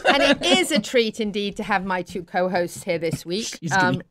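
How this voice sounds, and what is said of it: British accent. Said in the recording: “it's a treat to hear a British accent.”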